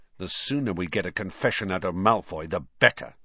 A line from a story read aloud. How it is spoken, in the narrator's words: snarled Ron